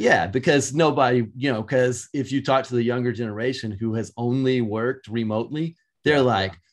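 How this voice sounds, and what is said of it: Usual voice. Nothing is said of it.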